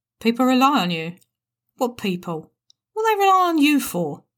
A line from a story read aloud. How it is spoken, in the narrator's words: Jim sneered